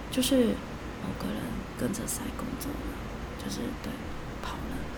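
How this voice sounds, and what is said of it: Speaking very quietly, hushed. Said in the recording (Chinese): “我必须要说的很小声”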